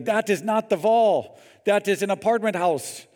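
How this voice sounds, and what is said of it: Put-on German accent. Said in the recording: “It's my best German accent.”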